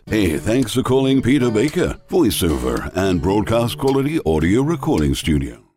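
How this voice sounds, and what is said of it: Cool voice with international accent. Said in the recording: “a cool style with an international accent.”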